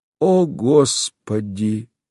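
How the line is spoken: Heavy sigh. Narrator (Russian): проговорил он и тяжело вздохнул

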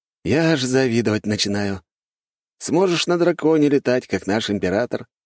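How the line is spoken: Smirking. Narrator (Russian): хмыкнул Славик

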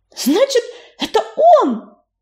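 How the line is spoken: Delighted exclamation. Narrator (Russian): в восторге выкрикнула она

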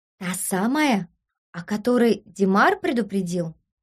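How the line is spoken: Loud whisper. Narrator (Russian): одна шепнула на весь коридор

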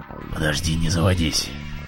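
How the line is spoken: Man's hoarse voice. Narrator (Russian): Осипшим голосом вымолвил мужчина

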